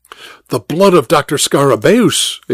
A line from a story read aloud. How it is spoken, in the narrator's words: exclaimed Dr